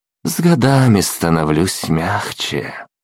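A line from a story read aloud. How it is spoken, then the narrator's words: Insincere sigh. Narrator (Russian): лицемерно вздохнул Лиам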